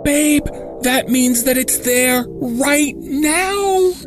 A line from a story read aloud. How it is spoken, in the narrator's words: She shrieked in panic